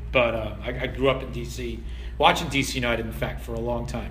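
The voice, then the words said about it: Non-Philadelphia regional American accent. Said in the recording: “y'all can probably tell by my accent that I'm not a Philly native.”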